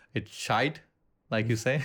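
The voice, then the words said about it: Fairly good put-on Irish accent. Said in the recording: “that was pretty good Irish accent”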